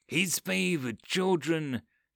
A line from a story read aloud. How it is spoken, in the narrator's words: whispered mockingly